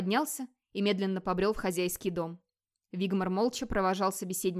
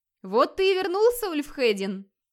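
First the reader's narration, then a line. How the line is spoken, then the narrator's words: Joyful exclamation. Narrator (Russian): радостно воскликнул он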